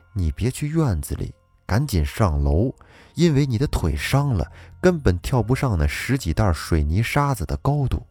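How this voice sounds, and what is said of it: Hushed, quiet speech. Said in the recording (Chinese): “小声”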